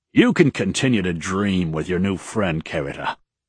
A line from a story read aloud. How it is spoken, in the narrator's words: Daishi replied gruffly